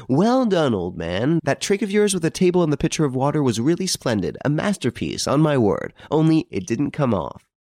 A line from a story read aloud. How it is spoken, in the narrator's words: gaily exclaiming